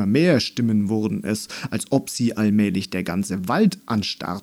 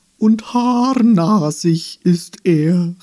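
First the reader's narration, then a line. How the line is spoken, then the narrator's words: Tree calling from behind. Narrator (German): rief ein Baum von weiter hinten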